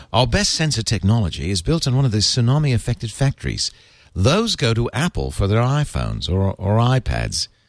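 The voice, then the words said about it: Posh English accent. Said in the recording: “I have to tell you what the accent is ... I have that English accent in my head ... such a posh English accent”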